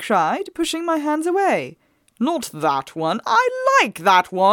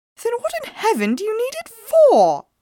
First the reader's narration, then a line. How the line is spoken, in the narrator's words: I asked, haughtily